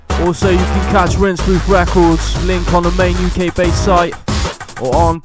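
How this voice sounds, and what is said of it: Bristolian English accent. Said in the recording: “my Bristolian accent”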